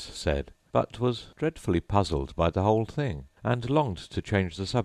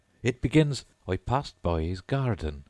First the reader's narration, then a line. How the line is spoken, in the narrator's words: Alice did not dare to disobey, though she felt sure it would all come wrong, and she went on in a trembling voice